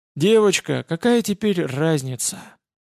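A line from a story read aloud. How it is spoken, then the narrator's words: Leprechaun's weary sigh. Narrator (Russian): устало вздохнул лепрекон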